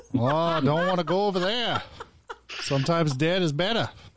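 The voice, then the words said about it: Put-on Maine accent. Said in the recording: “That's a Maine accent.”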